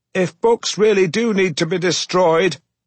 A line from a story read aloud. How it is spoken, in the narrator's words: I screamed at the foreman over the deafening roar of the machinery